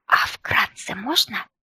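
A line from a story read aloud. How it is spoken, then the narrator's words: Whispered question. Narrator (Russian): шепотом поинтересовалась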